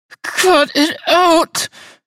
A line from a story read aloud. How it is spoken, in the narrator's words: she pleaded